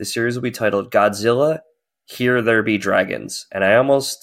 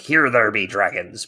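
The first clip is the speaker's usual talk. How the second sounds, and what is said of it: Pirate accent. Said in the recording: “say the title in a pirate accent”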